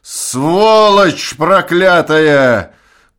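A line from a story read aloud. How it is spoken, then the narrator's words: Tearful shout, pain and anger. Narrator (Russian): кричал он, в его плачущем голосе слышались боль и злоба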